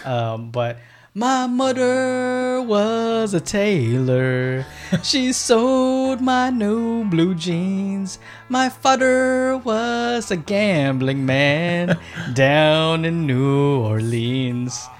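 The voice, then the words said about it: Singing in an exaggerated immigrant accent. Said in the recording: “I will sing them with my dad's fob accent.”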